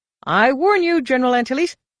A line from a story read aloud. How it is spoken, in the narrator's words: he snapped